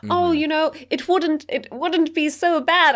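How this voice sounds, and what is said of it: Imitation that sounds like Queen Elizabeth. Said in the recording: “You were so close. ... I don't know how I went straight to the crown. ... You were the Queen Elizabeth there as Hardin.”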